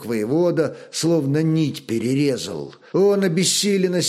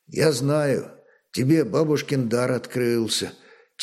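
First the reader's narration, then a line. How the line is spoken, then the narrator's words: Quiet speech. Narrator (Russian): тихо молвил брат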